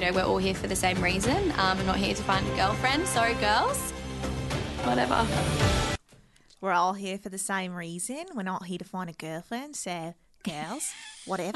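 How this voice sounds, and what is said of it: A good put-on accent. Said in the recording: “That's really good. That's really good. We've got two very good accent people.”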